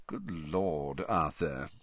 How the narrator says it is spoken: he said softly

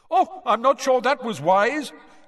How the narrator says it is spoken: They could hear Bagman shouting gleefully

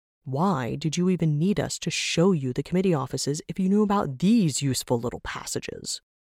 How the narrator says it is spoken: Travok grumbled

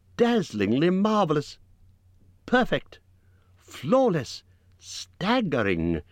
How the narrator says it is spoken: exclaimed Bilbo aloud

